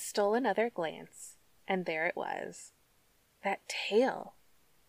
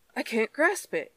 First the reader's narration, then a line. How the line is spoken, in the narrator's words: he cried